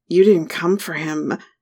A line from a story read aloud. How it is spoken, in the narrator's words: I growled when we came up for air